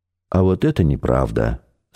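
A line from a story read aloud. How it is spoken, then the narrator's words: Calm. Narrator (Russian): спокойно сказал Максим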